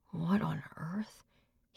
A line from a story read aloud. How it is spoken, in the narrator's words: He muttered to himself